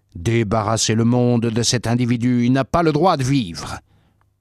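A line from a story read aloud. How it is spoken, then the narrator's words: Crowd shouting. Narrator (French): Ils criaient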